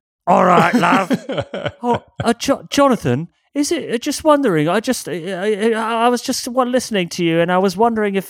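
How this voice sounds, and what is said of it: Attempted British accent impression. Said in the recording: “he has a very British accent ... That was good enough. We got a flavor.”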